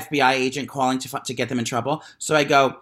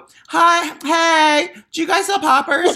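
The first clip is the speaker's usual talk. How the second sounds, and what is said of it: Exaggerated camp voice. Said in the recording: “I made sure my voice is extra gay”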